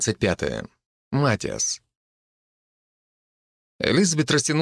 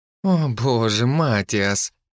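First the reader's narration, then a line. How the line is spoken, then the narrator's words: Moan. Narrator (Russian): простонала Лиззи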